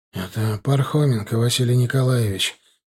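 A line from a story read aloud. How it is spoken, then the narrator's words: Exhausted man's voice. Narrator (Russian): тем же замученным голосом сказал мужик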